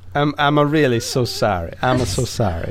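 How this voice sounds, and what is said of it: Mock Italian accent. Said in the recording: “Italian accent ... Is it more Chico Marx or is it more like Charlie Chan? ... more Chef Paschetti from Curious George”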